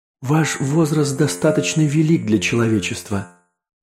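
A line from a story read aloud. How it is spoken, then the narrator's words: Sad. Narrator (Russian): сообщил рептилоид печально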